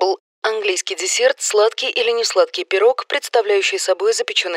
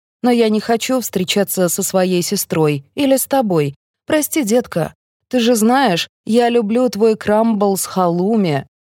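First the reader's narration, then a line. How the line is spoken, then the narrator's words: Calm. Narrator (Russian): спокойно говорит она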